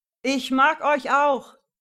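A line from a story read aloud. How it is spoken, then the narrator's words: Shouting. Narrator (German): brüllte Emil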